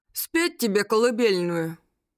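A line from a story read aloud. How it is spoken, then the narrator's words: Sleepy offer. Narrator (Russian): Сонным голосом предложил Колян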